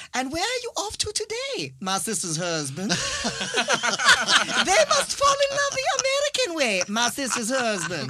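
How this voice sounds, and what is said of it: Put-on weird Chinese accent. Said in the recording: “this weird kind of southern Chinese accent”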